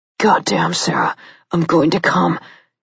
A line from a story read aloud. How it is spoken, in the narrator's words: warned in a gruff voice